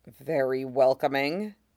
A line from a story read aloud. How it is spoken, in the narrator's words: Din muttered